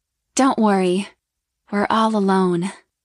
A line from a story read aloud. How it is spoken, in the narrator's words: she purred